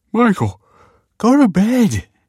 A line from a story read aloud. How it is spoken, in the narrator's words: yawned